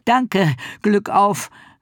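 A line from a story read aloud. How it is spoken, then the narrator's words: Called after. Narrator (German): rief Ricky ihm nach und machte sich auch noch einmal Mut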